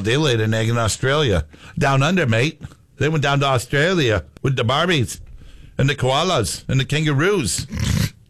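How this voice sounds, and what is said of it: Put-on Australian accent. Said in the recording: “my Australian accent”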